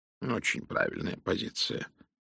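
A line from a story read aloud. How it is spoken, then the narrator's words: Muttered. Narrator (Russian): пробормотал Пуаро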